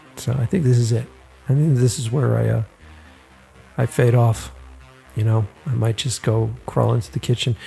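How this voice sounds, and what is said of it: Tired, worn-out voice. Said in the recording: “I'm tired. If you can't tell, my voice is tired.”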